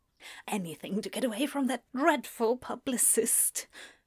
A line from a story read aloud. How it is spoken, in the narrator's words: Newt muttered at Anathema once they were out of Michael's earshot